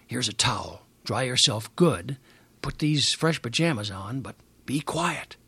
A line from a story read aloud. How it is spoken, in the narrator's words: He whispered to us